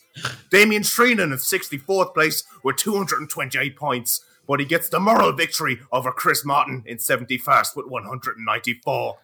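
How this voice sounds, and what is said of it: Put-on English sports commentator accent. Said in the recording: “The generic Sky Sports English accent.”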